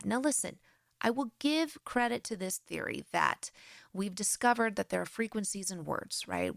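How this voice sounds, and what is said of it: American accent. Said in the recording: “I have an American accent, I'm sure.”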